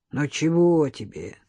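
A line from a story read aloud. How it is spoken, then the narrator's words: Hoarse sleepy voice. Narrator (Russian): сиплым с просонья голосом ответил гражданин Ященко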